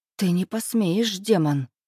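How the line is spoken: Breathless defiance. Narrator (Russian): выдохнула она

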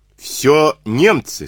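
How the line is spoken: Plain. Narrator (Russian): сказал он

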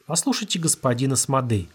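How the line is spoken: Calm. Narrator (Russian): спокойно сказал Сенека

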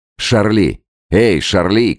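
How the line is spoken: Shouting. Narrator (Russian): крикнул Роллинсон

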